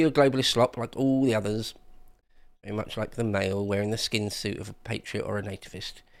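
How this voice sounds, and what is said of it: Usual voice. Nothing is said of it.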